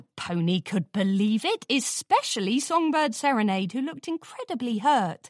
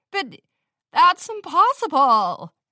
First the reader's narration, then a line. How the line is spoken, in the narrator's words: Ritzy Rose stammered, crestfallen